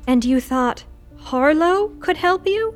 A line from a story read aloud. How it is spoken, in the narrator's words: Lou groaned